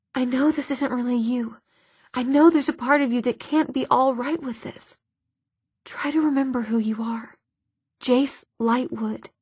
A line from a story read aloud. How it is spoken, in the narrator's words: Clary whispered